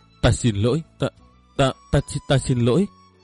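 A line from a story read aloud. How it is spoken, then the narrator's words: Remorseful stammering. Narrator (Vietnamese): Cậu chợt thấy hối hận vô cùng, lắp bắp nói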